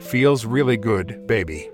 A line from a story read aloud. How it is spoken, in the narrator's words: she said